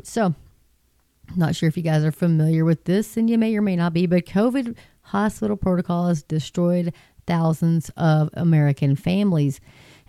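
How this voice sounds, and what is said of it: West Texas twang. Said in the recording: “I give it a little twang on there from West Texas”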